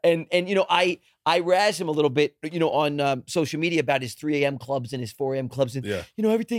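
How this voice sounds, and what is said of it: Usual voice. Nothing is said of it.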